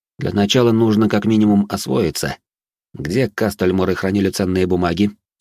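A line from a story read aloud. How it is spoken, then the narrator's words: Plain. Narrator (Russian): спросил я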